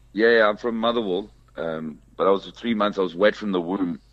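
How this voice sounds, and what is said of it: Slight Scottish accent. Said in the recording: “You've got the accent. There's a bit of Scottish in there or something.”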